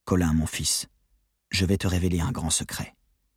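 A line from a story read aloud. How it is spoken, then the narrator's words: Stranger whispering in ear. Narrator (French): Cet inconnu qui me soufflait à l'oreille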